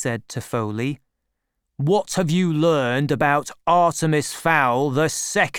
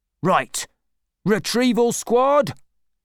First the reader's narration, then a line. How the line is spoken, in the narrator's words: shouted Root